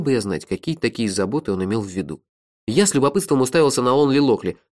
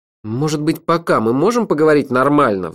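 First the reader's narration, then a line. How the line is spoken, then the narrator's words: Pleading. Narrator (Russian): взмолился я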